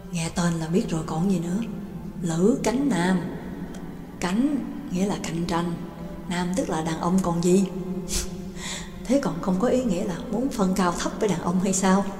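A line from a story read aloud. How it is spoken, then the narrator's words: Secretive, ever-quieter whispering. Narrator (Vietnamese): Hai người càng nói càng nhỏ giọng, giống như hai kẻ làm chuyện xấu đang ngấm ngầm bàn luận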